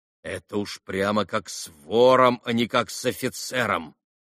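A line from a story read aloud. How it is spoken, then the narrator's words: Grumbling to himself. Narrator (Russian): проворчал про себя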